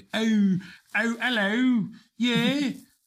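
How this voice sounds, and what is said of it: Deliberately bad British accent. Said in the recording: “I don't do a really great British accent, but I love it. You know, I love doing it terribly.”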